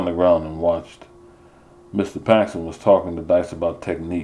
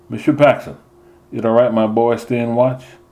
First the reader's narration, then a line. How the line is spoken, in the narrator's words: Daddy hesitated, then called out to the coach